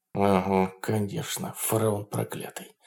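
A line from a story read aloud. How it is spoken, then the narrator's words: Muttered through clenched teeth. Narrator (Russian): сквозь зубы пробормотал Берс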